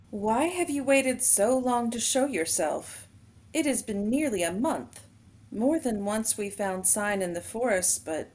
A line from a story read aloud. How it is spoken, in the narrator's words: frowning, and said in her clear, musical voice